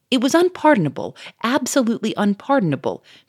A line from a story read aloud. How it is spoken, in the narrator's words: cried Monsieur Fomeray